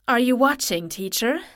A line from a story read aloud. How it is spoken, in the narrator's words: murmured